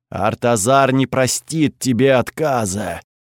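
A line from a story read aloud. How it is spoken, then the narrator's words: Booming far-carrying voice. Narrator (Russian): прогудел голос опоры на всю округу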